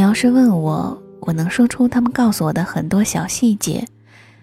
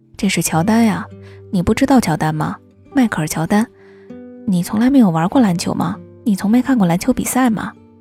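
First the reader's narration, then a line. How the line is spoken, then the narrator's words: Plain. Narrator (Chinese): 他们跟我说了很多很多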